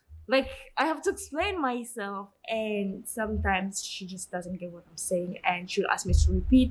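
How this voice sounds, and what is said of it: Non-American foreign accent. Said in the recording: “She's American, so she's not used to my accent.”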